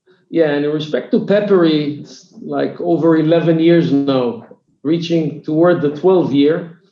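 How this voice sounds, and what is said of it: Israeli-accented English. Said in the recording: “i'm from israel if it was not clear from my accent so i'm israeli”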